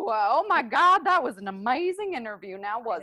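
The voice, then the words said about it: Put-on Southern accent. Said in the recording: “I just developed a Southern accent.”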